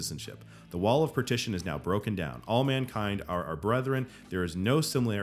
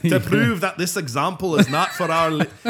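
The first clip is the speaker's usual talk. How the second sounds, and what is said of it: Put-on Scottish-sounding accent. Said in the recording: “Could you say that again in the Irish accent? ... I think that's more Scottish ... Oh, no, that's Scottish.”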